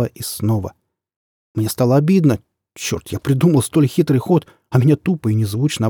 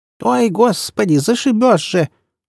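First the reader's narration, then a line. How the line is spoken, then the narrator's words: Hunched old woman's startled cry. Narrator (Russian): вскрикнула согнутая в три погибели старушка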